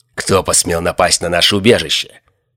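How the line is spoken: Growling bald man. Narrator (Russian): прорычал лысый

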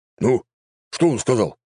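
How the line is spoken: Exclaiming. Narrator (Russian): воскликнул правитель

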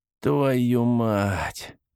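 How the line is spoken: Drawn-out exclamation. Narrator (Russian): протянул

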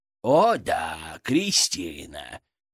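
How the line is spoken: Sarcastic drawl. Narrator (Russian): тут же язвительно протянул Фырк

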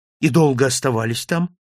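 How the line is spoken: Almost cheerful question. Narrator (Russian): спросил я почти веселым тоном

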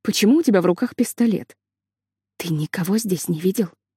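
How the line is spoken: Whisper. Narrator (Russian): прошептала Лили

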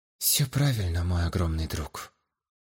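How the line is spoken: Quiet, supportive. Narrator (Russian): тихо поддержал я его

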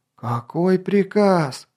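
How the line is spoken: Anxious moan. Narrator (Russian): простонал врат, до которого дошло, что сейчас он один представляет воинское начальство

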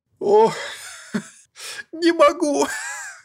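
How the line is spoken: Man laughing again. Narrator (Russian): Вновь засмеялся человек

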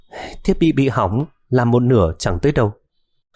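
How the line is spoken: Sighing. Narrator (Vietnamese): Miêu Anh thở dài

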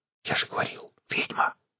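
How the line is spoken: Whisper. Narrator (Russian): Гарик шепнул

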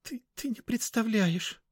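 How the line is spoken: Sobbing. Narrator (Russian): всхлипнула она

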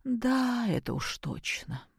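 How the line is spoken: Sigh. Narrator (Russian): вздохнула Любовь Сергеевна

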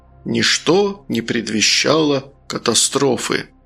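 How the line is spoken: Sepulchral, solemn announcement. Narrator (Russian): загробным голосом возвестить

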